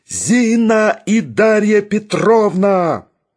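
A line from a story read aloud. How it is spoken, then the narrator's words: Iron-voiced yell. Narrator (Russian): Железным голосом отозвался Барменталь и завопил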